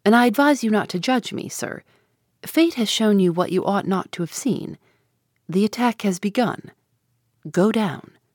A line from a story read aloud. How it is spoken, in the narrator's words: he replied coldly